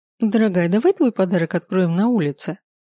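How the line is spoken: Suggesting. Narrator (Russian): предложила Марго

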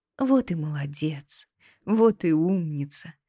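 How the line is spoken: Tender, gentle. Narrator (Russian): ласково проговорила Кару

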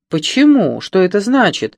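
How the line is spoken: Exclaiming. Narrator (Russian): воскликнула Сильви

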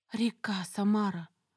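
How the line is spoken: Soft awed breath. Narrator (Russian): тихо выдохнула я, будто боялась спугнуть спящую воду

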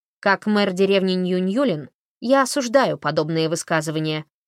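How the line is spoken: Barked. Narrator (Russian): рявкнула она

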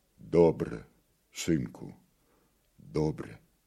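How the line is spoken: Quiet old man. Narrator (Russian): сказал тихо Бульба

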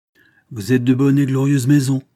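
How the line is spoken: Exclaiming. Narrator (French): s'écria le comte

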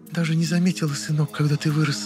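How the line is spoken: Quiet whisper, mother. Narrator (Russian): Мама тихо прошептала

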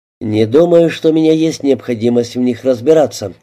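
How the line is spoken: Dry remark. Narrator (Russian): сухо заметил Алин

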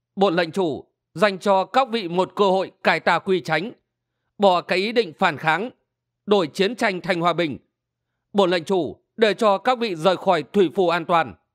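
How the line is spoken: Raised voice. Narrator (Vietnamese): Triệu Sĩ Nguyên cao giọng

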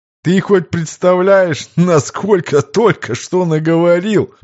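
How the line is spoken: Chuckled, unable to hold back. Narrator (Russian): Не выдержав, хохотнул Виктор

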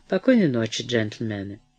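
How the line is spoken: Rude, curt retort. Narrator (Russian): грубо отрезал Броуди

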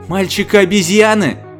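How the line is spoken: Impotent furious exclamation. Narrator (Russian): в бессильной ярости воскликнула мисс Фэллоус

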